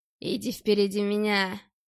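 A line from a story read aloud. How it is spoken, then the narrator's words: Hoarse strained shout. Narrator (Russian): сорванным криком сиплый голос Глушкова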